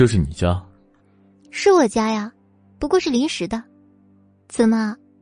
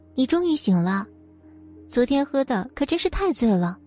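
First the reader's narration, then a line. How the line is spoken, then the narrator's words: Warm, gentle. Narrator (Chinese): 脸上发出暖暖的笑容，温柔的说道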